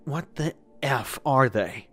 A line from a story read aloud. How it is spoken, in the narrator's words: I asked in a breathless voice